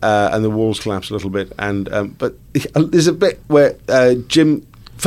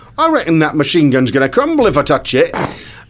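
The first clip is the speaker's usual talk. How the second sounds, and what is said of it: Put-on American accent. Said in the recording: “That's my American accent.”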